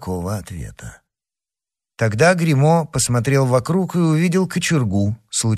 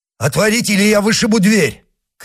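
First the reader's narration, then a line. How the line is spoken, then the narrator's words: Shout. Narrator (Russian): крикнул Гримо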